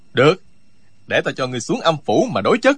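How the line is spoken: Loud angry voice. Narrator (Vietnamese): Trương Du Kỳ càng tức giận, lớn tiếng nói

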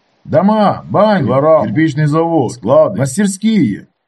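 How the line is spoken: Many voices shouting. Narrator (Russian): кричали люди на разные голоса

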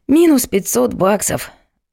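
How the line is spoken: Sighing. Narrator (Russian): вздохнул фальшивый историк

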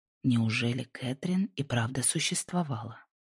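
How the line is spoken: Whispered to himself. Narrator (Russian): прошептал Джордж, больше спрашивая себя, чем кого-то другого

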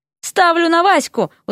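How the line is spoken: Hurried shout. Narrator (Russian): успел крикнуть Дерек

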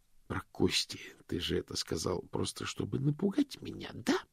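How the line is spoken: Hissed. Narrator (Russian): прошипел мокрец

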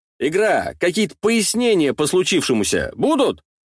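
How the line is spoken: Loud question. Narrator (Russian): Громко спрашиваю вслух

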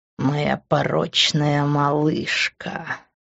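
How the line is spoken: Slow savoring drawl. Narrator (Russian): протянул он, смакуя каждый звук

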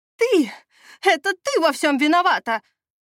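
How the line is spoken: Yelling. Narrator (Russian): заорала Мира

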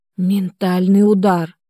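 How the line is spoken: Hiss. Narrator (Russian): прошипел Денис

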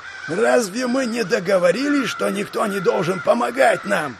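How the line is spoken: Offended roar. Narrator (Russian): Обиженно взревел тот

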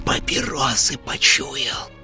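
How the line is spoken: Barely audible hiss. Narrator (Russian): прошипела на грани слышимости Зинаида Петровна

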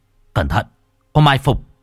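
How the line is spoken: Shouted warning. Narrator (Vietnamese): Hoàng Kính quát

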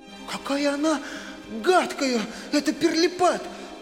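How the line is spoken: Passionate exclamation. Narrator (Russian): с жаром воскликнула Мари

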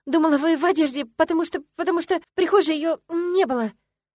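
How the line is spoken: Stuttering. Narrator (Russian): Никогда прежде я не заикалась

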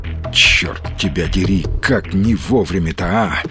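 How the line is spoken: Whisper. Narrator (Russian): прошептал сталкер

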